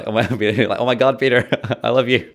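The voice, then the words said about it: Put-on American accent. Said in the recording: “was that your American accent? ... That was my American accent. ... Very good. Very good.”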